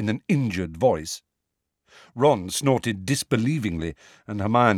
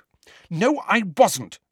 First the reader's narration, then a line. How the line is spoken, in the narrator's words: said angrily